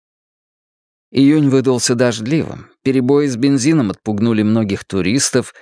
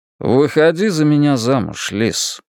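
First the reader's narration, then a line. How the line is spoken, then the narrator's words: Flat detached tone. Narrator (Russian): произнес он безучастным тоном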